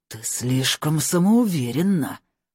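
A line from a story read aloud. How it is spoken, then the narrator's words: Angry hiss. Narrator (Russian): зло прошипел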